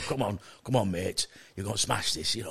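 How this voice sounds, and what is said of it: Deep voice imitating another person. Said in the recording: “why have you got such a deep voice?”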